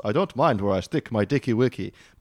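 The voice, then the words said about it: Weird put-on foreign accent. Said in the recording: “in like a weird Persian accent. I was going to be like a Norse ... I don't really know what that accent was”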